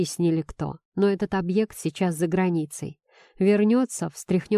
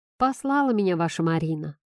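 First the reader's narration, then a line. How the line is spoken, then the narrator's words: Short chuckle. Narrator (Russian): хохотнул мужчина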